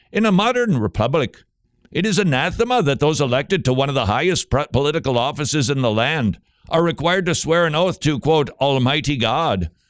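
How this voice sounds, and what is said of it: Put-on Irish accent. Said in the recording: “I guess I should use my Irish accent.”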